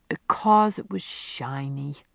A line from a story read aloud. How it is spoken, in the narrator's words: The crow, who was very young indeed, in fact only a year old, said wearily